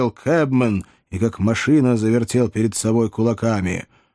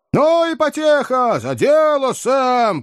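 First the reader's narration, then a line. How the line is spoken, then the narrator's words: Encouraging, merry shouting crowd. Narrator (Russian): поощрительно закричали несколько наемных кучеров и, бурно веселясь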